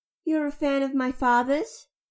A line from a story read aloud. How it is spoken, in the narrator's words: It chuckled